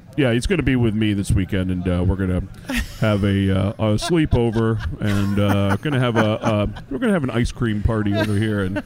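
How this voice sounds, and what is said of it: Imitates a generic adult father. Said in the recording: “I could impersonate an adult and call all of our parents ... sound like an adult ... I could impersonate a generic father”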